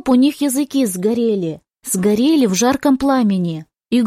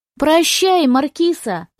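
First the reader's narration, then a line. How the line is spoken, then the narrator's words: Shouting together. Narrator (Russian): закричали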